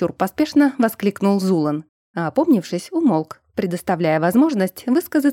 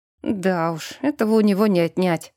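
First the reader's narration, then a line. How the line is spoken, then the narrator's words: Resigned sigh. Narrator (Russian): обреченно вздохнул мужчина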